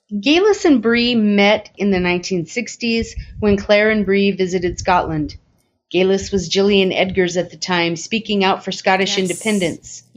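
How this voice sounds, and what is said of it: Southern California accent. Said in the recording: “different accent than Melinda. She's got like this Southern California kind. Almost, it reminds me of Benny the Jet from The Sandlot. Little bit of like just oomph.”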